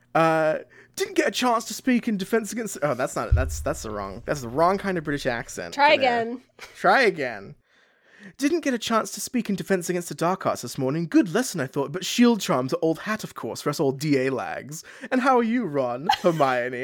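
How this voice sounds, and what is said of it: Pompous British accent. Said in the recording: “do it in like a pompous British accent ... That was perfect”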